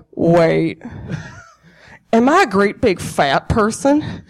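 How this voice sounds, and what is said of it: Imitates a movie character's voice. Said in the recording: “That's my Buffalo Bill impression”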